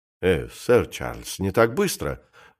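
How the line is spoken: Exclamation. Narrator (Russian): воскликнул капитан Скарроу

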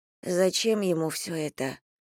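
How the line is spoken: Sigh. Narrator (Russian): Я вздохнула

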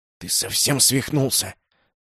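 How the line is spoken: Hissing in ear. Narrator (Russian): зашипел мне в ухо Тавль

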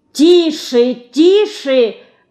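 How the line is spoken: Straining shout. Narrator (Russian): надрываясь, кричала Любовь Ивановна

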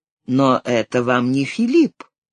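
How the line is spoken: Calm reply. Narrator (Russian): он ответил спокойно

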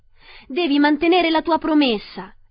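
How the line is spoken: Exclaiming. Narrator (Italian): esclamò Dorothy

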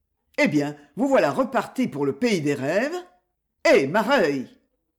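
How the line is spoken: Exclaiming. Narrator (French): s'exclama

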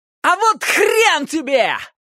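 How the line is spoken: Joyful yelling. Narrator (Russian): Тут же радостно крикнул я в ответ и проорал вверх

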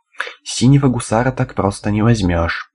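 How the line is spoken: Exhaled through teeth, wincing, groaning. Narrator (Russian): выдохнул он сквозь зубы, морщась и постановая

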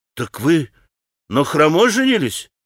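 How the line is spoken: Exclamation. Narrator (Russian): воскликнул Колганов

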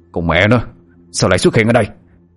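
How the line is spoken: Irritated snap. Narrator (Vietnamese): Lê Cao Hưng chụp đầu gắt

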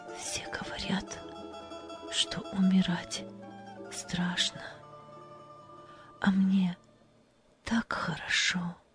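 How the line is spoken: Smiling whisper. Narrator (Russian): она улыбнулась и прошептала

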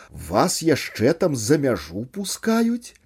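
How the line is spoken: Nervous exclamation. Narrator (Belarusian): з нервовымі ноткамі ў голасе выгукнуў Герман

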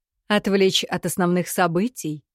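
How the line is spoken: Skeptical snort. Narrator (Russian): хмыкнул Таши

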